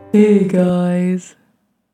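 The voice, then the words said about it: Cartoonish character voice. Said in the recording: “That was my Eeyore impersonation... It didn't sound like Eeyore... It sounded like a character... my frat boy voice... it kind of sounds like Homer Simpson.”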